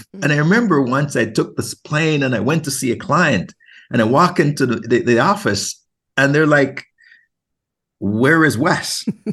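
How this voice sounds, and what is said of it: Jamaican accent. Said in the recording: “you hear that Jamaican accent”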